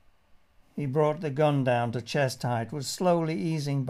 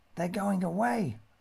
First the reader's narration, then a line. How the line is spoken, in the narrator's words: hissed